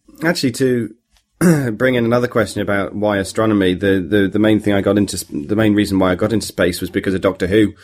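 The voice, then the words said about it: British accent. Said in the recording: “I've got a British accent”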